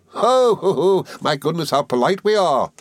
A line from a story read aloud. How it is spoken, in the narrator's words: exclaimed Miss Moucher